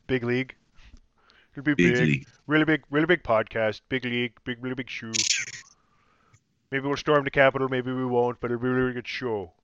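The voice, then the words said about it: Imitates another person's voice. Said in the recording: “my impersonation of Alec Baldwin impersonating former United States President Donald Trump”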